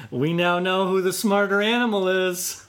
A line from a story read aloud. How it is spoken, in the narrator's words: he laughed and said